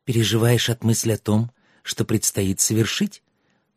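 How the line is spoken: Whispered in ear. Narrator (Russian): прошептала ему на ухо Аннет

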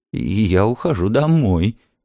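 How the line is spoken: Trembling voice. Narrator (Russian): дрожащим голосом промолвила миссис Бауэлс

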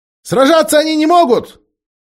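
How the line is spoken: Shouting. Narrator (Russian): крикнул

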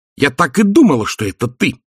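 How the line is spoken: Barked. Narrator (Russian): рявкнула Сьюзен

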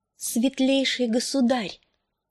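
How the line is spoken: Quiet, slightly trembling voice. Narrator (Russian): проговорила она негромким, чуть дрогнувшим голосом

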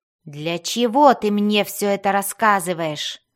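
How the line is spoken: Growling. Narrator (Russian): прорычал Свирфнеблин

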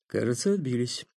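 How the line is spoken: Calm. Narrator (Russian): спокойно сказал князь

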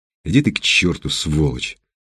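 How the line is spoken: Hissing. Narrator (Russian): прошипел Андрей

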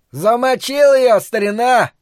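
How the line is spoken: Yell. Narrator (Russian): завопил тычок

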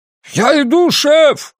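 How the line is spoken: Shouted. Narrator (Russian): прокричал Энди

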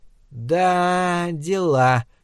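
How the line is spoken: Drawling. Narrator (Russian): протянула Соня

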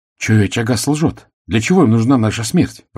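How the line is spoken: Exclamation. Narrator (Russian): воскликнула Тевиса

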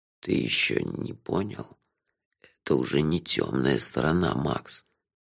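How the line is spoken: Hoarse. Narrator (Russian): хрипло сказал Лонли Локли

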